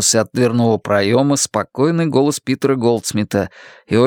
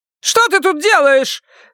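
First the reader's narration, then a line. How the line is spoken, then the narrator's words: Bark. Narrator (Russian): рявкнула Карла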